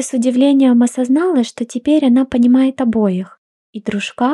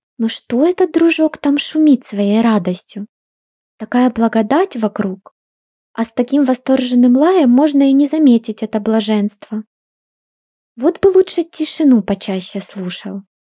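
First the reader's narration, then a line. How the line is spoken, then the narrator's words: Musing purr. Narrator (Russian): мурлыкал изредка с мыслями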